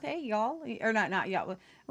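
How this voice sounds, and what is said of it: Put-on Southern accent. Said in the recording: “put on a little accent here and there ... get a little bit from the south here”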